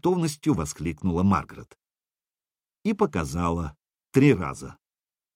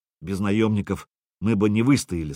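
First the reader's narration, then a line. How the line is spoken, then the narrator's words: Plain. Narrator (Russian): сказал сенешаль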